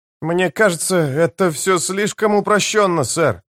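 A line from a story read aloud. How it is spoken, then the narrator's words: Hesitant remark. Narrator (Russian): неуверенно заметил Леонардс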